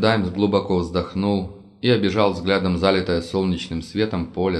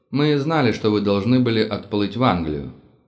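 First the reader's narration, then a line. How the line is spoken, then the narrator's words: Calm. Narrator (Russian): сказал он, спокойно глядя мне в глаза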